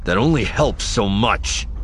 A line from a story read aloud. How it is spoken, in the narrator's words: he snaps